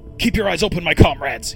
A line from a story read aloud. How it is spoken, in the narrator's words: yelled